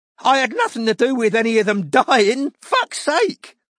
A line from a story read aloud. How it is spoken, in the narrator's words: said Douthwaite, trying for an incredulous laugh and merely looking terrified